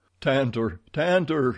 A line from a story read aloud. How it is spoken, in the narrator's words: he cried